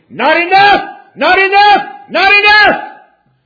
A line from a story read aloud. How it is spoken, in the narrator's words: my conscience screamed